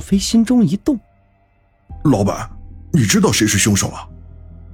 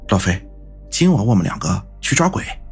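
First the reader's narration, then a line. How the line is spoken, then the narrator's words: Soft, confidential. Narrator (Chinese): 云峰 轻声的说道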